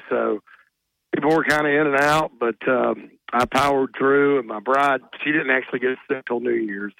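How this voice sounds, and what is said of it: Voice sounds sick. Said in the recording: “you can probably tell by my voice, we had kind of a flu bug”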